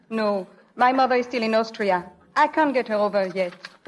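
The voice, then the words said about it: Viennese accent. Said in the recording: “What sort of an accent is that you have? ... Oh, that's Viennese.”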